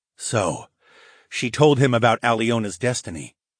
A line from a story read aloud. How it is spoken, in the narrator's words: murmured more to myself